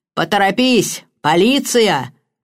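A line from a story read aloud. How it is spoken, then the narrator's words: Roar. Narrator (Russian): проревела мисс Хинчклифф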